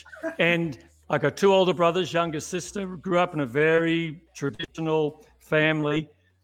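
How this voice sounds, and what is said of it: Australian accent. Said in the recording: “you may pick up from my accent, I'm not born in the US, was born in Melbourne, Australia”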